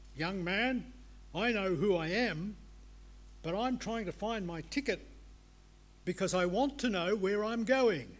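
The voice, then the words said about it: Gruff voice. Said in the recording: “in a gruff voice”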